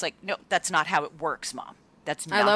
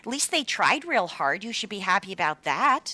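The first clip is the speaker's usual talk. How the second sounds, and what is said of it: Imitating mom's Nova Scotian accent. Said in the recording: “I love when you do your mom's accent and she sounds like she's from Minnesota ... Nova Scotia ... My mom's a blue noser”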